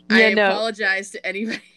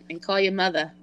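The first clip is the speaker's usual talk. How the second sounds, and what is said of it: Bad put-on Boston accent. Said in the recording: “That was my very, very bad Boston accent.”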